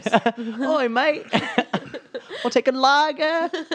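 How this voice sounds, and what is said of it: Bad British accent, sounds Australian. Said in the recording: “talking a British accent sometimes ... I don't even know how to fucking do an accent ... A little more on the Australian side”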